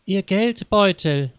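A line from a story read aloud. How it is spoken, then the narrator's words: Breathless older woman calling. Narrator (German): rief die ältere Dame leicht außer Atem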